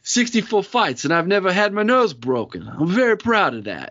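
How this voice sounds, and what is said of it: Poor impression of Rocky's voice. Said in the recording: “terrible Rocky impersonation”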